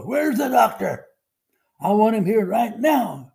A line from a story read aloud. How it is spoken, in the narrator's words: yelling at the top of his voice